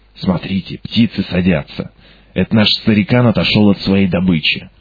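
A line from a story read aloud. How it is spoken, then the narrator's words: Whispered. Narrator (Russian): Уилсон прошептал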